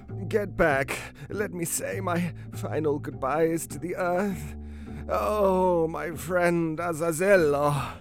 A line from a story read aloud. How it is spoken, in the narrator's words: moaned the cat, bleeding profusely